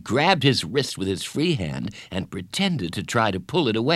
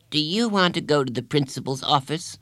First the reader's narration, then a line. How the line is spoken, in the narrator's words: she asked